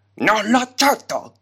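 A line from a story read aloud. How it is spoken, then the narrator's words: Thundering voice. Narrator (Italian): tuonò Articulus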